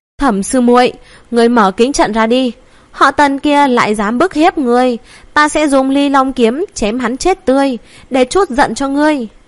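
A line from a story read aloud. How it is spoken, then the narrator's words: Loud shout. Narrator (Vietnamese): hét lớn một tiếng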